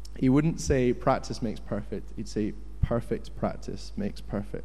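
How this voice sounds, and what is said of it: Usual voice. Nothing is said of it.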